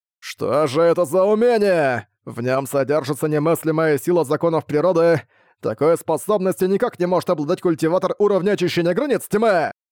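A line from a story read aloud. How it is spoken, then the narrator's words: Growl. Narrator (Russian): прорычал Фуфэнзы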